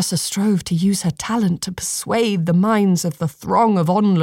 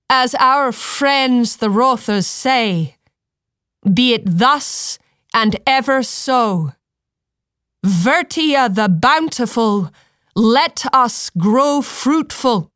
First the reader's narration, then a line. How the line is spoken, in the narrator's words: called out in a ringing voice